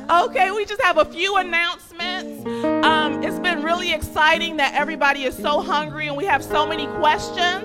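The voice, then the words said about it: Teacher voice. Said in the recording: “I still have my teacher voice from when I used to teach.”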